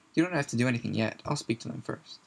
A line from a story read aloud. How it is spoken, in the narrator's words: she added quickly